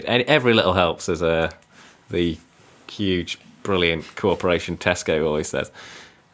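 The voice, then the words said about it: Sarcastic tone. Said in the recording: “that's being sarcastic.”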